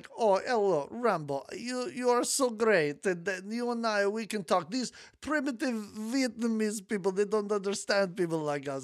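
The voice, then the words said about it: Put-on Russian accent. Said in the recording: “What a good Russian accent”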